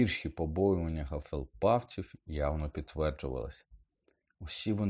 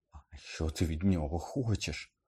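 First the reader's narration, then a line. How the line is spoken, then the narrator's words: Trembling voice, asking. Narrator (Ukrainian): тремтячим голосом запитав Ерні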